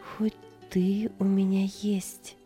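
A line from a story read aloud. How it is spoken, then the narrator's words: Whisper. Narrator (Russian): шептала она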